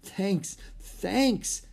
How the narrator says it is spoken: stammered Annie

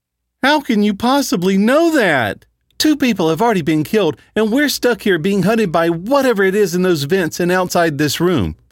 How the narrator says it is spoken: Phyllis cried out

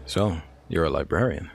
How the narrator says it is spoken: Quinn asked

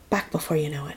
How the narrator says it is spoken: whispered

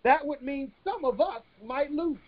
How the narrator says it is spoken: One said quietly for fear of being rejected

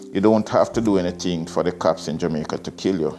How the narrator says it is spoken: he said

